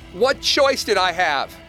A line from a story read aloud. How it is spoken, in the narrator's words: I shouted, crazed and afraid